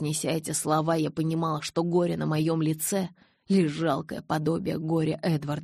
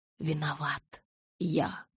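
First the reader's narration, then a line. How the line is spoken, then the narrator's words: Whisper. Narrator (Russian): прошептал Эдвард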